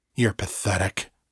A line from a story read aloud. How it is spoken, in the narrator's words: muttered